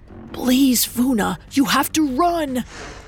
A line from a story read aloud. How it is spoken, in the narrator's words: Ikenna was whispering to her